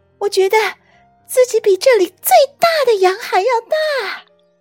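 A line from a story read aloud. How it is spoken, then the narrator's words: Shrieking. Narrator (Chinese): 婷卡尖叫着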